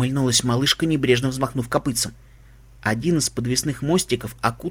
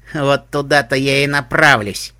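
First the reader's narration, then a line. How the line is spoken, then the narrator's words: Snorted. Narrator (Russian): фыркнула Пупижуть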